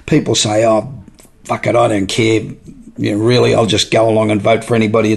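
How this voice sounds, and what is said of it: Australian accent. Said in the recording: “my accent still sounds like I'm Australian”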